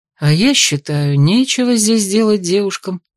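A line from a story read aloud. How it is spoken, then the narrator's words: Gloomy voice. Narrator (Russian): подал голос мрачно молчавший все утро Эйс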